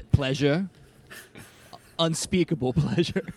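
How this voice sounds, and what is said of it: Failed attempt at South African accent. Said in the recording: “That is not a South African accent. ... I don't know how to do one. ... That's a really hard one to do. ... it's like New Zealand.”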